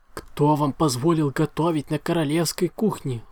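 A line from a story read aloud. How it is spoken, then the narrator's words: Unicorn howling. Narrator (Russian): взвыл единорог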